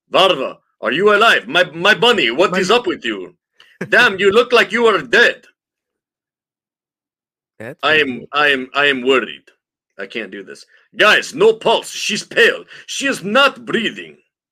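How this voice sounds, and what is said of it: Put-on Russian accent. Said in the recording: “Do we have any Russian accent actors in the house? Can you do it?”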